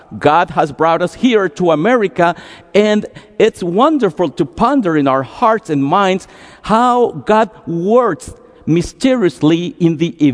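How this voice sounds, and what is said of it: Heavy Costa Rican Spanish accent. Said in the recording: “another immigrant from Costa Rica, with a heavy accent and broken English”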